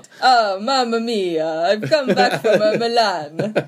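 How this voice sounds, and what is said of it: Put-on Italian accent. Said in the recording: “Can you do an Italian accent? ... Perfect.”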